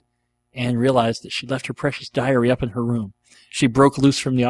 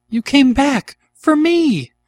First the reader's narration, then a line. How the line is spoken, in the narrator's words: cried Anne